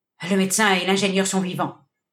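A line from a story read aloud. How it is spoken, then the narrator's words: More confident tone. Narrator (French): reprit le bandit d'un ton plus assuré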